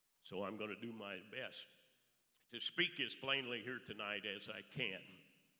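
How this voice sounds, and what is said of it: Raspy voice. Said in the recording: “I am sorry about my raspy voice, but there's something about the vegetation in Florida that excites my allergies.”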